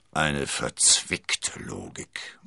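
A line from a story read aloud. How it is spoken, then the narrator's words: Murmur. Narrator (German): murmelte Porthos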